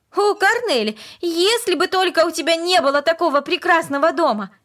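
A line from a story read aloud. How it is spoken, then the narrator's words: Sudden passionate exclamation. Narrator (Russian): Вдруг она страстно воскликнула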